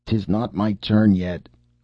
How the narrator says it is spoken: groaned Cap'n

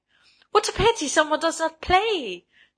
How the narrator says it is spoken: she cried

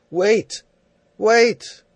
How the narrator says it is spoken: He called out

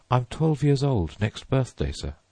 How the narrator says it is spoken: said Stephen

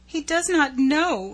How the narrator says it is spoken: sobbed

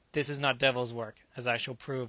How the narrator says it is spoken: Jonas said

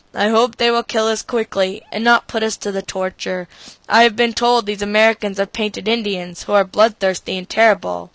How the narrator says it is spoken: Benny said in a hollow voice

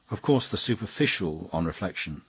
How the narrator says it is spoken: said Flambeau

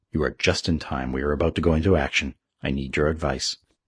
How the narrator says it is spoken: said the Confederate chieftain gravely

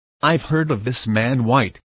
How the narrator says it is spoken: said the general

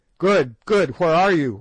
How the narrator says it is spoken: we shouted in terrified distress

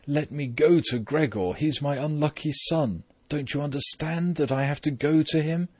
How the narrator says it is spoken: they had to hold her back forcefully, and when she then cried

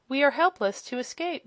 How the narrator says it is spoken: sighed the wizard

